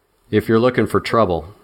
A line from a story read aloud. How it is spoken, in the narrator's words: I said